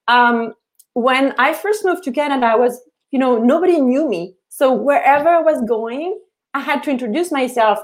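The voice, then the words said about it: French accent in English. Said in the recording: “people would pick up on my accent. Where are you from? And I would say, well, I'm from Paris.”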